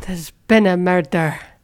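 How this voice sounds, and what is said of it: Put-on accent. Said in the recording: “That was quite a good accent, actually.”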